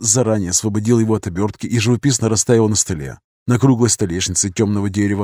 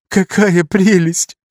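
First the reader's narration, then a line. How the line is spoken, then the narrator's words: Sobbing. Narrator (Russian): буквально прорыдала Юта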